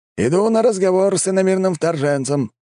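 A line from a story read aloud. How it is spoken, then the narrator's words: Man shouting. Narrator (Russian): крикнул мужчина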